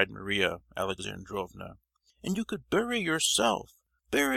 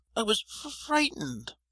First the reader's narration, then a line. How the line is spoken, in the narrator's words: stammered the prince in a whining voice